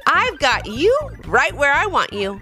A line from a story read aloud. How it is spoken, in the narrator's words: exclaimed Noah